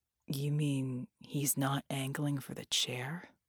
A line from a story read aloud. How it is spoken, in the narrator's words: Red asked, his voice dreadfully quiet